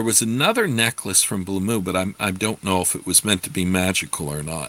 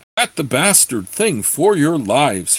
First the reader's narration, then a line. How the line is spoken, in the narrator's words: he shouted